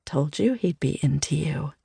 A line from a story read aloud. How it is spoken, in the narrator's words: She chuckles under her breath and whispers to me